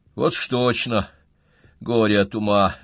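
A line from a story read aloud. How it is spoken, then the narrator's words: Sighing. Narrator (Russian): вздохнул Коля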